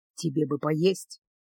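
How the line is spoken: Quiet. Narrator (Russian): тихо сказал Делиль

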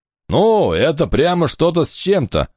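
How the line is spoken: Roaring. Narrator (Russian): взревел Десс

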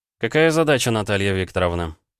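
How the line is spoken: Surprisingly calm question. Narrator (Russian): спросил он и сам удивился, что голос звучит спокойно

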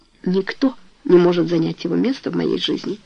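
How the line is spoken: Quiet reply. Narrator (Russian): ответила Тони тихим голосом

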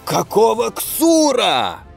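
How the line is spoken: Surprised yell. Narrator (Russian): удивленно заорал Горлух

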